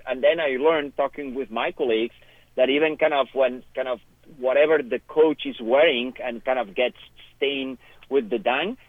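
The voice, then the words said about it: Non-American accent. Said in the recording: “I'm not American, as you could tell by my accent,”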